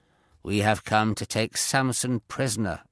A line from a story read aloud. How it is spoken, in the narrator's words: replied